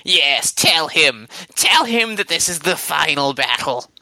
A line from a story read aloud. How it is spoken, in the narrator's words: this other voice sort of cackling